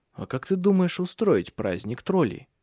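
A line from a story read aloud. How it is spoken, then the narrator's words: Whisper. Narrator (Russian): шепнул он дочери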